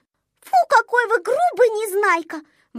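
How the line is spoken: Exclamation. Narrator (Russian): воскликнула Снежинка

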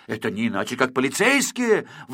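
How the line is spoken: Exclamation. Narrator (Russian): воскликнул Квантик

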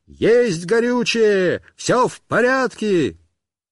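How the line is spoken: Shouting. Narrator (Russian): Он кричал

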